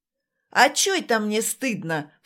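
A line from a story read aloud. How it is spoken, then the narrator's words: Dismissive snort. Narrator (Russian): фыркнул Володя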